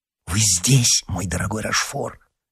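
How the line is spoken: In an undertone. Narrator (Russian): сказал Д'Артаньян вполголоса

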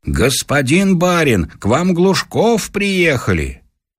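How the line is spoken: Shouting. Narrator (Russian): чей-то голос крикнул

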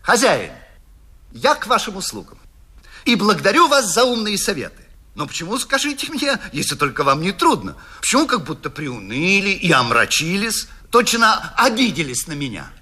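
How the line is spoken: Almost cheerful. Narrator (Russian): И он сказал почти весело

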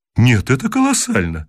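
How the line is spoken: Exclaiming. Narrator (Russian): воскликнул профессор

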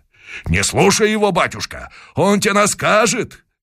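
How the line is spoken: Shouting. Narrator (Russian): кричали казаки

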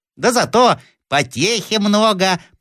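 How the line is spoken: Thin squeaky voice. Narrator (Russian): пропищал кто-то тоненьким голоском

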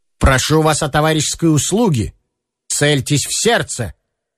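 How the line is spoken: Firm voice, in German. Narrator (Russian): говорит он твердым голосом, конечно, по-немецки

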